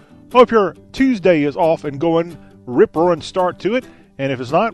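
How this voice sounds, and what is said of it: Southern American accent. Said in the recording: “we talk with a Southern accent”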